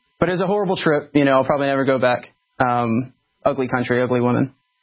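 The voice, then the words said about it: Sarcastic delivery. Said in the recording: “you're being sarcastic.”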